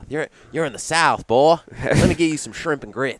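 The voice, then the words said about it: Put-on Southern US accent, well done. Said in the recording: “That's a great accent. you nailed it.”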